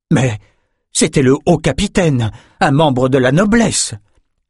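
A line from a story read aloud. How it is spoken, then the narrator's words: Guard exclaiming. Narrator (French): s'écria le premier garde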